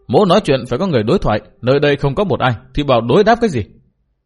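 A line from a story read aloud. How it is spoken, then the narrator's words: Scornful laughing speech. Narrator (Vietnamese): Liễu Tồn Trung cười nhạt nói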